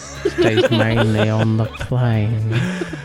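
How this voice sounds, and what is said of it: Put-on British accent, Salad Fingers-like. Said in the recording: “sounds like Salad Fingers when he does a British accent.”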